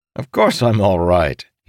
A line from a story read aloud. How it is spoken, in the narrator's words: he said, chuckling